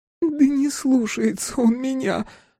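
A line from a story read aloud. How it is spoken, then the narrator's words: Breaking into sobs. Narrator (Russian): сорвалась на рыдание Анна Евгеньевна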